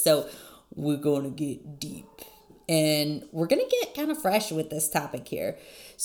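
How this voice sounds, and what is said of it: Husky, hoarse low voice. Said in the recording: “You get the sexy voice today. ... I don't know if it's a cold that my kids brought home from school or if I just partied way too hard, but you get the sexy voice”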